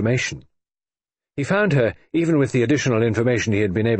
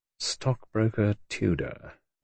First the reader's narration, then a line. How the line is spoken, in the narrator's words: murmured Sir Stafford Nye, under his breath